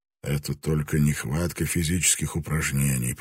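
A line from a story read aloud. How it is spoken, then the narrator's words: Mumbling. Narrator (Russian): пробормотал он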